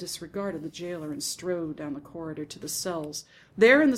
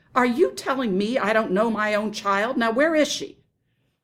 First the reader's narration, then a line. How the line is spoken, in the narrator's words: Mama shouted